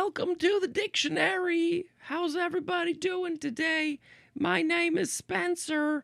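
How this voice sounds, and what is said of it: Usual voice. Nothing is said of it.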